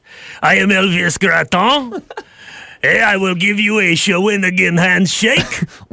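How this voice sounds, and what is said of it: Exaggerated Quebec French accent. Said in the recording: “The Elvis Graton accent.”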